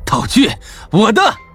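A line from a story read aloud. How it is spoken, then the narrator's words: Fanatical laughter. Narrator (Chinese): 陈破军的眼中露出一丝狂热，哈哈大笑道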